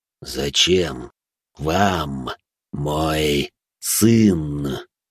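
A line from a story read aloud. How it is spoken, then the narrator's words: Said through gritted teeth. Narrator (Russian): процедил Марк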